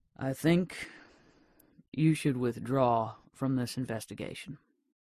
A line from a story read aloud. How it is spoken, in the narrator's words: said quietly